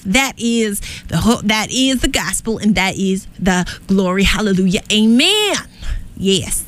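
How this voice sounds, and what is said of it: Southern US preacher accent. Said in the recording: “I got to say this with a southern accent because I am channeling a preacher from down south ... Sometimes I just channel a southern accent, and it's really just channeling a preacher down south”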